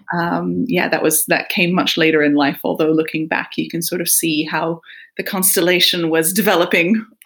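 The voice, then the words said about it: American Michigan accent. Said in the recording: “As my accent, I'm sure, tells you, grew up in the US, in Michigan”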